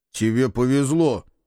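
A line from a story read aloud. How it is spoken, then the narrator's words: Grumbling. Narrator (Russian): проворчал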